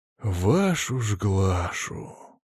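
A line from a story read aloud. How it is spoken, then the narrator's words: Sighing. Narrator (Russian): Вздохнул я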